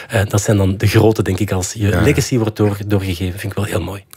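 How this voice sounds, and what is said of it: Antwerp Borgerhout Flemish accent. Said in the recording (Dutch): “mijn Borgerhouts accent”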